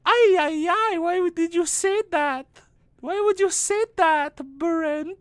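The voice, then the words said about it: Thick put-on Filipino accent. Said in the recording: “your hot Filipino wife ... I don't know why she has such a thick accent.”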